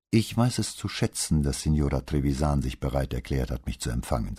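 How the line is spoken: Plain. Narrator (German): sagte Brunetti

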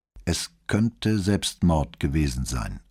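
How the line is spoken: Plain. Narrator (German): antwortete Santini

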